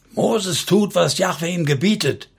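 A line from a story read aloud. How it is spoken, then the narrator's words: Shouted. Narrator (German): schrie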